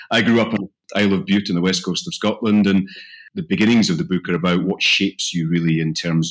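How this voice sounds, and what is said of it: Scottish accent. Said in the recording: “People will maybe recognize the voice as a Scottish accent.”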